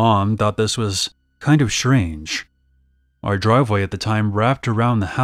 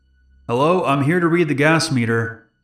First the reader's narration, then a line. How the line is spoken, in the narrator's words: a man called out